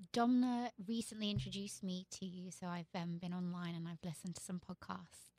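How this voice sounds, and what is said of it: British accent. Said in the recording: “that accent. I just can't. I can't with that accent. It's too good. It's too good. That's like the Queen's English right there. That's some proper British right there.”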